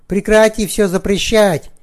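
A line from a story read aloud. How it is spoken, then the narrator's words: Shouted out. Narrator (Russian): выкрикнул народный трибун Луций Криспин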